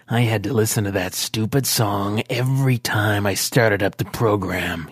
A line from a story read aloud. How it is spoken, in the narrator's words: snarled